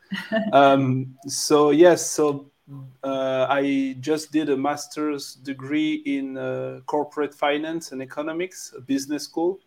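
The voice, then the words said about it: French-accented English. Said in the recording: “I'm French, so you can uh, probably hear my French accent”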